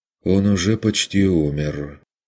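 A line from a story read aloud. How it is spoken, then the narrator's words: Indifferent flat voice. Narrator (Russian): безразличным голосом констатировал раненый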